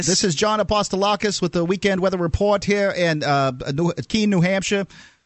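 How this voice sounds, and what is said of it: Impression of a local TV weatherman. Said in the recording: “making fun of the weather guy here. Do me the weather guy”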